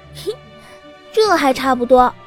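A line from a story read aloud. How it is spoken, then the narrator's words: Coy, giggling. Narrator (Chinese): 香儿娇笑道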